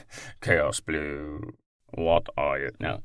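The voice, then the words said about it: Severus Snape character impression. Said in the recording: “Is that your Severus Snape impression?”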